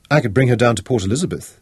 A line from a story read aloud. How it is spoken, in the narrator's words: Tara cut in eagerly